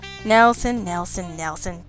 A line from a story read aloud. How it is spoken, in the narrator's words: Jack said soothingly